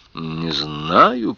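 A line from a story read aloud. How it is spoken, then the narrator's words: Grumbled. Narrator (Russian): проворчал он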